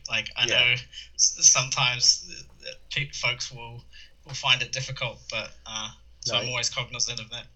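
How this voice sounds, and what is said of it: Mild New Zealand accent. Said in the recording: “I've lost some of my New Zealand accent over the years”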